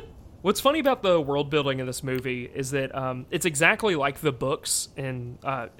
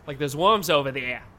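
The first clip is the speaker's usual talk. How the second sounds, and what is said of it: Weak attempt at Boston accent. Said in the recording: “I really want to try a Boston accent ... I'm just going to airball so hard ... That's as close as I could get.”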